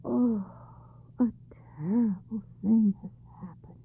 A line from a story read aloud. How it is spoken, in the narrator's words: the tutor sighed with great concern and murmured